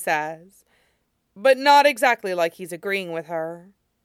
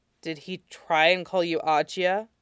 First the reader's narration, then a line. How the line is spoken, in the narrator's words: He asks, keeping his voice low so he doesn't wake him